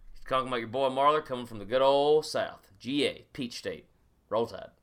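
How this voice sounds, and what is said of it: Put-on Southern US drawl. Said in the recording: “I'm going to be talking like this ... Southern accent ... All Southern draw ... Like you got a little bit of molasses in your mouth.”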